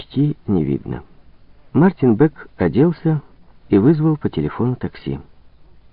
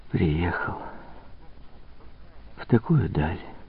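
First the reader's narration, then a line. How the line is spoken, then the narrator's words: Barely audible whisper. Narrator (Russian): чуть слышно прошептала она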